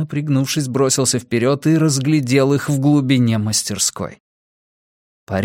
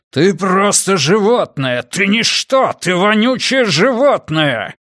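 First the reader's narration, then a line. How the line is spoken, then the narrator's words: Man roaring, shouting. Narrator (Russian): Мужской голос взревел, выкрикнул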